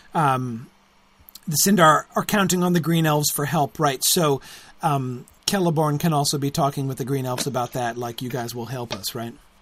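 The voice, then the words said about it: Strained, fading voice. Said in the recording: “As you can hear, I'm losing my voice”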